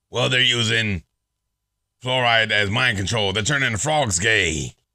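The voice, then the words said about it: Imitates another person's voice. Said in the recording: “my Alex Jones impression. My voice can't even do it anymore.”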